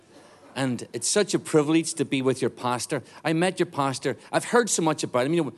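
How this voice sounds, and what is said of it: Irish accent. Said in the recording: “I obviously am from Ireland. I really do talk like this ... speaking with an Irish accent”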